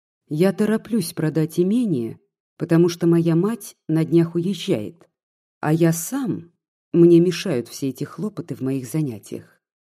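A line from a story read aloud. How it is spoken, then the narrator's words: Plain. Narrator (Russian): сказал Егор Александрович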